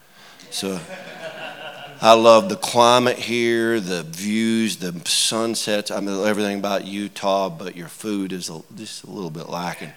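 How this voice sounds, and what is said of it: Southern US accent. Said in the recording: “If you can tell from my accent, I'm a little further south than that. So I grew up in Georgia.”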